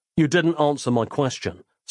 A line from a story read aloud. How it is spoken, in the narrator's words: said Nick